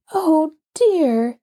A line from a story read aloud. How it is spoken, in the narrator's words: exclaimed Jess, almost ready to cry with disappointment